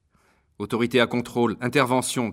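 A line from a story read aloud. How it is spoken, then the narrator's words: Shouted into earpiece. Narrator (French): cria Kim Watfield dans son oreillette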